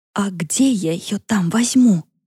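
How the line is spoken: Covered whisper into phone. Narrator (Russian): зашептала Яна в трубку, прикрыв ее рукой

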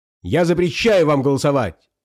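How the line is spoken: Shouting. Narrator (Russian): закричал Пашка

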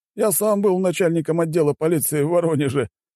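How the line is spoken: Laughing loudly. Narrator (Russian): расхохотался Валера

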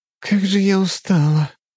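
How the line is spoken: Sighing young woman. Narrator (Russian): вздохнула девушка

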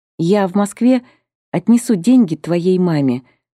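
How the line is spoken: Plain. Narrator (Russian): сказала Романова

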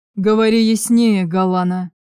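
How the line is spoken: Growling reply. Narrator (Russian): прорычал он в ответ

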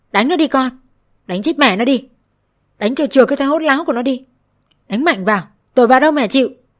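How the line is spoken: Screaming. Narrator (Vietnamese): Mẹ chồng chị gào lên

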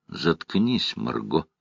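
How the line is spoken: Harsh tone. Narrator (Russian): Жесткость его тона

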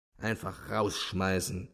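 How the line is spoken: Murmured. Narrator (German): murmelte Simonow

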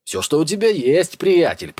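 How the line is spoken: Shouting back. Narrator (Russian): прокричал в ответ

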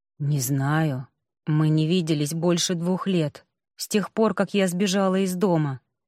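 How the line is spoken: Quiet reply. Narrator (Russian): тихо ответила

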